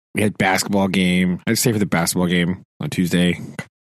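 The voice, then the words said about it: Hoarse, worn-out voice. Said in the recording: “My voice is wrecked this week, like just completely destroyed ... I'm just tired this week”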